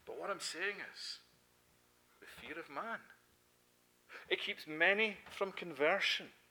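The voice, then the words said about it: Scottish accent. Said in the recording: “just like my accent, betrays me wherever I go... You're not Canadian... You're Scottish... No, I'm Scottish.”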